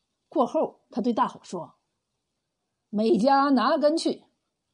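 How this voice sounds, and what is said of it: Usual voice. Nothing is said of it.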